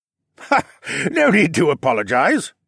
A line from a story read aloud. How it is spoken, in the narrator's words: the stout man laughed